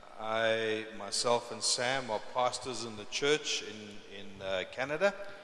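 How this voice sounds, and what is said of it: South African English accent. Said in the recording (Spanish): “As you can hear from my accent, I'm not from Canada originally ... I originally come from South Africa”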